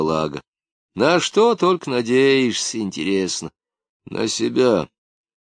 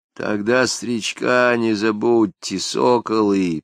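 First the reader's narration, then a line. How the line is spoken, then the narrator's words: Toothless mumble. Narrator (Russian): прошамкал Балага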